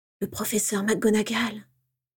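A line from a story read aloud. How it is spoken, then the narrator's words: Adoring murmur. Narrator (French): murmura James avec adoration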